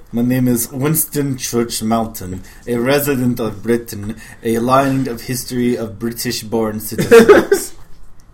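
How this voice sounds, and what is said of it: Bad put-on British accent. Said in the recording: “I'm so sorry for my accent. That will be bad.”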